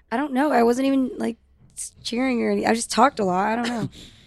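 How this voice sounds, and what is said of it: Rough, worn-out voice. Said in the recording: “What's wrong with your voice, dude? ... My voice is fucked. Excuse my voice. ... You have USPA voice.”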